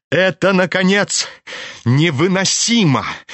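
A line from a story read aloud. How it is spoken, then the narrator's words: Loud impatient declaration. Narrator (Russian): громко и нетерпеливо заявил вдруг племянник Лебедева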